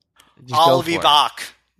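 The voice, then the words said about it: Imitates another person's voice. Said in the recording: “There's my Schwarzenegger impression.”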